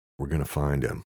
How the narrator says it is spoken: Luke whispered to the dog

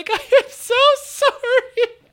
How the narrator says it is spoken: doubled over in laughter, being like

